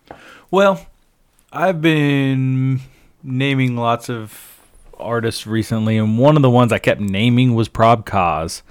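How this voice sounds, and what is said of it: Deep smooth radio-announcer voice. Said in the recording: “got this mad radio voice.”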